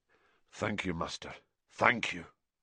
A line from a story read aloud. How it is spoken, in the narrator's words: murmured McNair